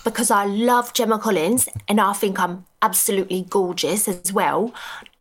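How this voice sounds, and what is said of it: Put-on Essex British accent. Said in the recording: “my British accent's sweet. So, like, my best one is Essex ... I kind of lost it for a second there.”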